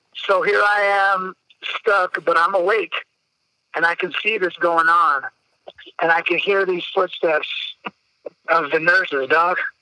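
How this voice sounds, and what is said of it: Choked-up, emotional voice. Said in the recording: “I get a little choked up”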